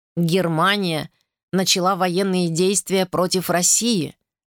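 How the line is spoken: Plain. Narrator (Russian): сказал он

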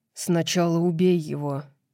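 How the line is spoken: Grumbling. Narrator (Russian): пробурчал Хант

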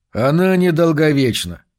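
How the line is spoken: Mocking, suppressing laughter. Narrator (Russian): насмешливо ответил Джо, и Гранту опять показалось, что он с трудом сдерживает хохот

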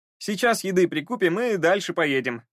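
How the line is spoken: Joyful coachman announcing. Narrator (Russian): радостно возвестил кучер

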